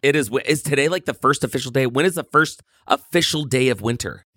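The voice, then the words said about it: Rough voice with a cold. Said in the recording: “my voice sounds terrible ... I've got some kind of a cold that hasn't left for like 3 weeks”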